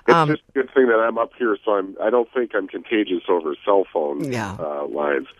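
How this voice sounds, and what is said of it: Deep congested sick voice. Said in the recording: “I'm doing my Barry White impression this morning because I've had a sinus infection for 3 weeks, which, of course, got worse yesterday... I probably don't sound like myself... your Barry White voice”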